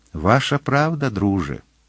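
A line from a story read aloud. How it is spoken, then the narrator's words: Tender speech. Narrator (Ukrainian): вона ніжно сказала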